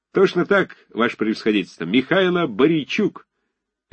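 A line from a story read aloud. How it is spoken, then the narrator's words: Cheerful shout. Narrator (Russian): весело, с довольной детской улыбкой крикнул солдат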